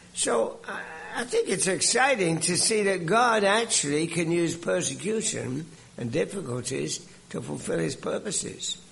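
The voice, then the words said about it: British English accent. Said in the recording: “you can tell from my accent where I grew up ... I came over from Britain, but the accent remains ... an Englishman”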